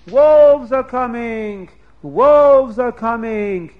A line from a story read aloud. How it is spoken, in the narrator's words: somebody screams